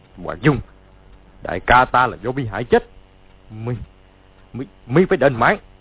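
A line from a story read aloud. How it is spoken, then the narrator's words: Shout. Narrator (Vietnamese): quát lên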